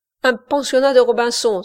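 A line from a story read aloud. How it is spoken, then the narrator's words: Exclaimed. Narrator (French): s'écria Service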